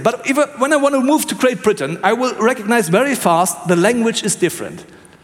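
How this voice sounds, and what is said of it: German accent in English. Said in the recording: “I have German accent ... So that's not good accent.”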